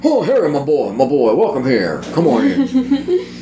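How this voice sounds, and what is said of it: Blustery put-on Southern accent. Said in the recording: “I always kind of wanted to go blustery like that. And to be fair, a southern accent and a British accent are not all that different”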